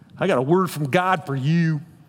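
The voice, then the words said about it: Put-on Southern US accent. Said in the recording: “you have a southern accent when that happens”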